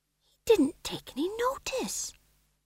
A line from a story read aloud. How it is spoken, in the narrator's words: whispered Tom John